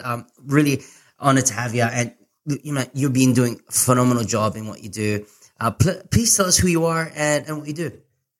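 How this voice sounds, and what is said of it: Mixed Filipino and Australian accent. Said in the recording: “I have a bit of a mixed accent, Filipino and Aussie, and sometimes it sounds a bit weird, just meshed up together”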